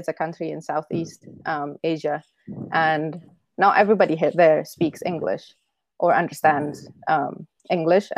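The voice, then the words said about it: Indonesian-accented English. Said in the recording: “my accent ... people who speak English with that accent ... my country is called Indonesia”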